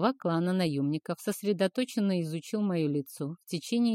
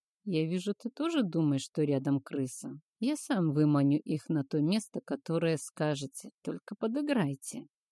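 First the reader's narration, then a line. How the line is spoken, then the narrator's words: Quiet confidential voice. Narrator (Russian): Тихо, так чтобы слышал только тень, я сказал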